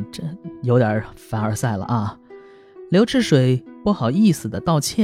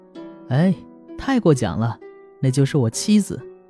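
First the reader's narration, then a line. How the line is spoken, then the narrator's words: Young man, laughing. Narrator (Chinese): 年轻人笑着说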